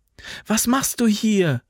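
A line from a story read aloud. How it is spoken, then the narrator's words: Calling out. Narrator (German): rief sie dem jungen Soldaten zu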